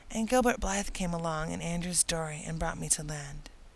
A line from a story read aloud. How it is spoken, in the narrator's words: explained Anne wearily